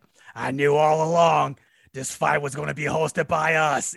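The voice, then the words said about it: Impression of an elderly man's voice. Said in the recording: “good impersonation. ... 89-year-old Bob Arum.”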